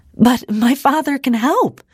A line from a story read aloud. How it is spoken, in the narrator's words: Ida exclaimed